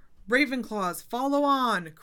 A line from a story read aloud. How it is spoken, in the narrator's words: cried Professor McGonagall